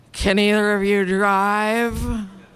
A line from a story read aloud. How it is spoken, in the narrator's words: With seriously slurred speech, said